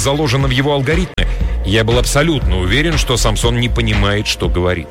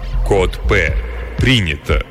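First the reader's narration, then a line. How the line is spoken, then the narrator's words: Droning hum. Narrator (Russian): прогудел Самсон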